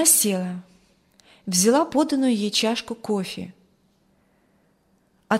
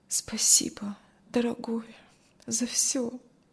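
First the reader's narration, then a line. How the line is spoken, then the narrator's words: Barely audible. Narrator (Russian): Кристи еле слышно сказала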